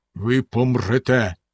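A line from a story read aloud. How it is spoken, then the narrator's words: Stern man. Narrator (Ukrainian): суворо сказав він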